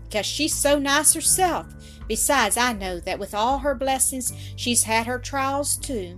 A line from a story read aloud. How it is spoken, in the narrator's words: exclaimed Carrie Howard